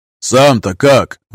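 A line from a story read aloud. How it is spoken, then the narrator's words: Shouting after someone. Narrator (Russian): вдогонку ему крикнул Крюгер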